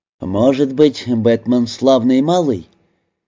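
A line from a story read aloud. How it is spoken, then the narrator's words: Relieved laughter. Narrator (Russian): Напряжение немного отпустило его, и он рассмеялся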